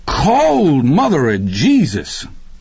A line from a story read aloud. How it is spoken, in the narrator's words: Deke hit the water and bellowed